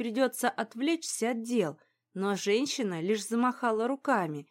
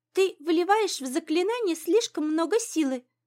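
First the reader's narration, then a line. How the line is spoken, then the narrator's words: Squeaky voice. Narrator (Russian): пропищала она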